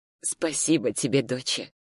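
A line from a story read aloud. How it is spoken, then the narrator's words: Quiet mother's voice. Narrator (Russian): сказала мама тихо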